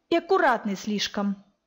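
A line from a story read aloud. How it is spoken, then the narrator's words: Grumbling. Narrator (Russian): продолжила бурчать Захара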